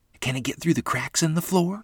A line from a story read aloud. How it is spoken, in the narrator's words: Lottie asked, her voice trembling with alarm